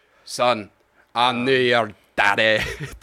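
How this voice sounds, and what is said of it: Imitates an actor's accent. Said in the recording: “I was gonna do really an good. impression of him ... his accent is hilarious”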